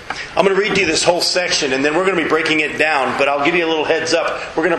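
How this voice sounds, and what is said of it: Strained voice affected by a cold. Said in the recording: “my voice is this way because of a cold and because of a wonderful worship experience yesterday with 288 pastors. And I sang real loud.”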